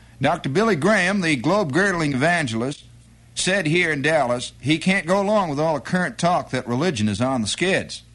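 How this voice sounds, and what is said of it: Put-on Texas accent. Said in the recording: “I suppose I should give a Dallas, Texas accent.”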